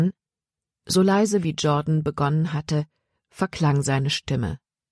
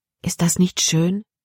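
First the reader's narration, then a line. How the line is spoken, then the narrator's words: Plain. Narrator (German): fragte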